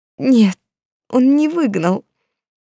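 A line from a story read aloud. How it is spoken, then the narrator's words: Sobbing. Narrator (Russian): Сесиль всхлипнула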